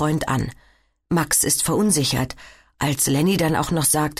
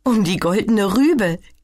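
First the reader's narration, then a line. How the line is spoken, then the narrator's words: Giggling. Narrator (German): kichert Sina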